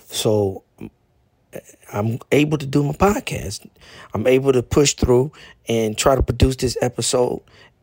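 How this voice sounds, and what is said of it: Weak, not fully recovered voice. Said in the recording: “lost my voice ... my voice is not all the way 100, but I'm able to speak now”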